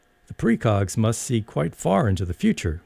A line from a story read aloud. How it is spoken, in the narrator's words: exclaimed